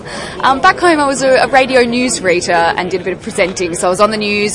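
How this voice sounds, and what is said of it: Strong Australian accent. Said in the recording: “I have quite an accent. I'm from Australia.”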